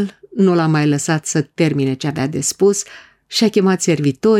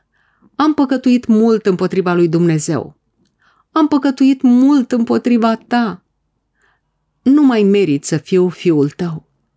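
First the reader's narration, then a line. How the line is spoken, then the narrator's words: Weeping. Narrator (Romanian): a plâns fiul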